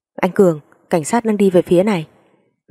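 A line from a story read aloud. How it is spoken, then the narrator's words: Someone shouting. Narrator (Vietnamese): có một người hét lên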